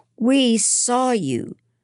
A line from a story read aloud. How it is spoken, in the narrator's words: several kids called out